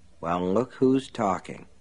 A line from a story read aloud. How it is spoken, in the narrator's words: Lester Pratt muttered